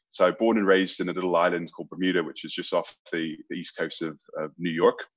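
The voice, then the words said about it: British accent with American twang. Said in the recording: “your accent ... I do have a British accent ... I've got the British accent and then I've got the American twang as well ... there's the odd Aussie word comes out as well”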